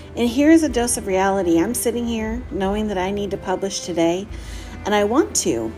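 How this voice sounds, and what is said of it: Tired, exhausted voice. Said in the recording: “I am so exhausted. I don't know if you can hear it in my voice, but I am so stinking tired.”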